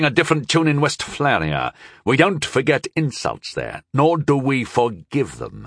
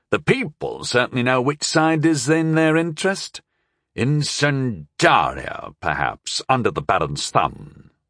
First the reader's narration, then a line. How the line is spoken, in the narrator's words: he observed coolly